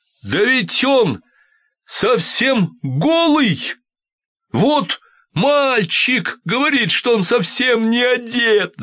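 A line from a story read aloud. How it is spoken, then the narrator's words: Crowd shouting. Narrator (Russian): закричал, наконец, весь народ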